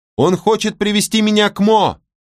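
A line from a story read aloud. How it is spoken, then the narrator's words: Shout. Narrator (Russian): крикнула она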